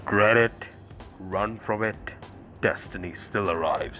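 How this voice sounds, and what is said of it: Impression of a comic-book villain. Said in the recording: “people tell me that I do a really good impression of Thanos”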